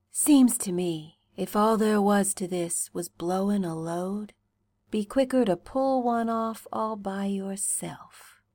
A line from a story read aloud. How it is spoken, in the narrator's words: he murmurs, with his cheek against your temple